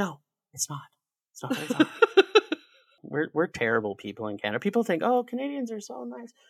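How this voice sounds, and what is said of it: Usual voice. Nothing is said of it.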